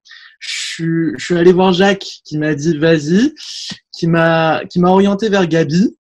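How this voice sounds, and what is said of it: Parisian French accent. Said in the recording (French): “C'est l'accent parisien ... je suis un petit titi”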